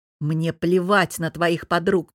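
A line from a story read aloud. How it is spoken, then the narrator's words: Growling man. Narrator (Russian): прорычал муж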